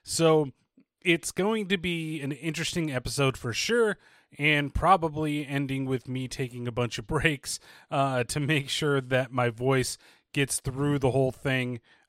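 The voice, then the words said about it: Slightly strained voice. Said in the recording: “as you can probably tell already, my voice is still just a little bit strained”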